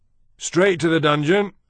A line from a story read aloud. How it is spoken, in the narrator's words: another voice shouted